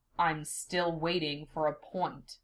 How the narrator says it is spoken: Sasuke says

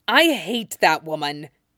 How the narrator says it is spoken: he snarled viciously

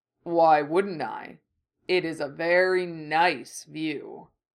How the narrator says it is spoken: the bull rumbled back

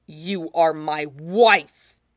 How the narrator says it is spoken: he hisses

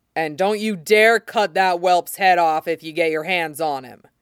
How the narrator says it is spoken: Robert growled savagely

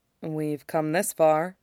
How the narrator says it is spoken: Itachi says quietly

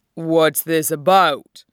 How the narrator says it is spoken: Bull asked gruffly

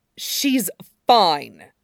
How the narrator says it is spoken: Hiyashi snaps

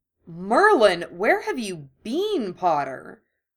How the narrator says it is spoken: Draco exclaimed, his nose wrinkled in disgust

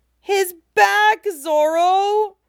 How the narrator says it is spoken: Chopper cries in horror

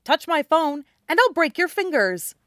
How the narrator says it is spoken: he snaps at Callie

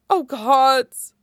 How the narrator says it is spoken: Prompto groans

